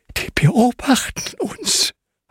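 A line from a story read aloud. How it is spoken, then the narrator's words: Breathy whisper. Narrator (German): haucht Hanna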